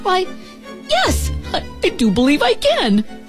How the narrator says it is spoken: And Kelvin, the happiest starling in the whole wide world, chirped

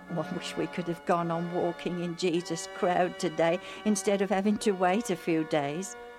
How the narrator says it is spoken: Alf said

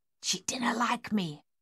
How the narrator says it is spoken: Miss Waits whispered

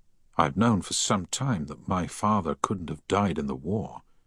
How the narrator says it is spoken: Harry said quietly

